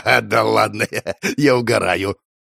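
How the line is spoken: Loud laughter. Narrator (Russian): захохотал он

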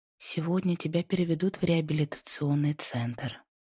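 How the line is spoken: Soft, slightly annoyed. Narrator (Russian): сказала она мягко, но с ноткой досады

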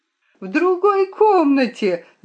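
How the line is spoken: Screaming at full volume. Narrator (Russian): закричала я, что было мочи

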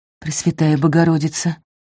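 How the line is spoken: Gasped exclamation. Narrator (Russian): Выдохнул Альда

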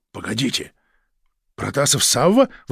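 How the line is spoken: Exclamation. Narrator (Russian): воскликнул начальник сыскной

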